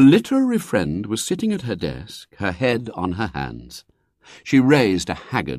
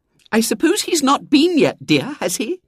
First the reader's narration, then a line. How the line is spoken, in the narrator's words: she said eagerly